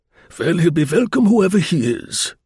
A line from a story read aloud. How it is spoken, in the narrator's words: grunted the colonel